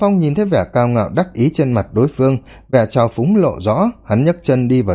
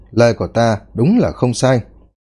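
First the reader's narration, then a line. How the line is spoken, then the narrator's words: Smiling. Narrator (Vietnamese): thanh niên kia mỉm cười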